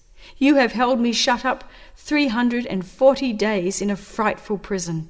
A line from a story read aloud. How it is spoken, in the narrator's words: he said